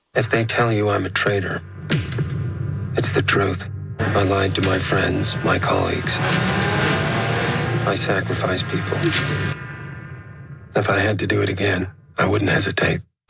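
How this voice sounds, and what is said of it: American accent. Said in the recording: “I love his American accent.”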